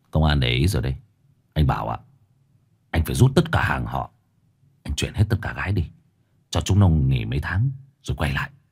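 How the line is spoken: Sighing, cold but kind. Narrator (Vietnamese): thở dài rồi nói bằng một giọng lạnh lùng nhưng tử tế

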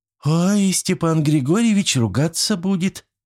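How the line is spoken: Squeaky worried. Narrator (Russian): пискнула Зина

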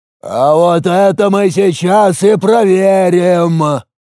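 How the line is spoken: Shouting over the noise. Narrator (Russian): закричал он, перекрывая поднявшийся гомон

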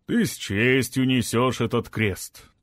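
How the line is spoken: Solemn declaration. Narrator (Russian): торжественно заявил он

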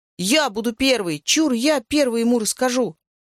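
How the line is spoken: Boy's frenzied shout. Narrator (Russian): рыжий мальчишка в звериной шкуре и неистово закричал

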